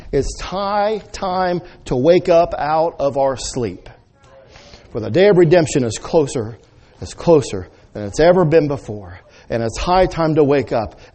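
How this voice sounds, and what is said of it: Yelling, screaming preacher delivery. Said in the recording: “why are you yelling around? Why are you screaming? ... You got a preacher who's red-faced. I look like my head's going to pop off my shoulders.”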